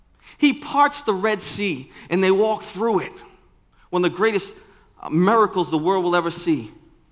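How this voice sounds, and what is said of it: Boston accent. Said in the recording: “My daughter says I don't say miracle right ... That's the Boston accent coming through.”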